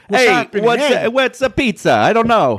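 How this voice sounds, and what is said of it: Mock New Jersey accent. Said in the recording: “I can't do your New Jersey accent ... I learned all I did with that accent from the Super Mario Brothers movie, 1993.”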